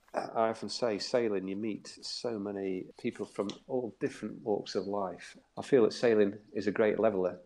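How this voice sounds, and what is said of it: South Yorkshire English accent. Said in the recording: “As you can tell from my accent, I'm not from down the south. I'm from Doncaster in South Yorkshire.”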